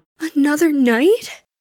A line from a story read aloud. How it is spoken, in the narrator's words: Tamaki whimpered